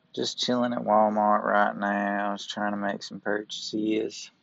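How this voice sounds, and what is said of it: Put-on Southern US accent. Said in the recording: “I bust out my southern accent”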